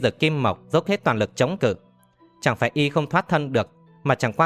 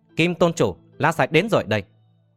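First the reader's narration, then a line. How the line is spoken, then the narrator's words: Loud shout. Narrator (Vietnamese): hét to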